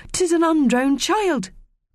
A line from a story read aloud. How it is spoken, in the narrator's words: called out one of the mermaids indistinctly, as she had a rather full mouth